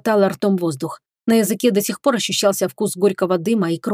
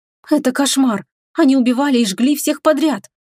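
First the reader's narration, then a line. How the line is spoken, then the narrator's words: Breathless, then coughing. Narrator (Russian): выдохнула я и закашлялась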